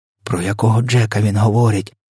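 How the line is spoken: Whispered question. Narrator (Ukrainian): пошепки спитала Софія

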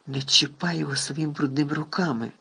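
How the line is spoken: Barely audible rasp. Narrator (Ukrainian): ледь чутно прохрипів Гаррі

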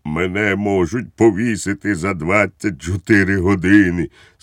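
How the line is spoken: Sad, trembling. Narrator (Ukrainian): сумно відповів Балоун, трясючись усім тілом

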